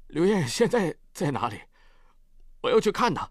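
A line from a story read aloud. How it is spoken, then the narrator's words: Choked-up question. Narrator (Chinese): 他哽咽着问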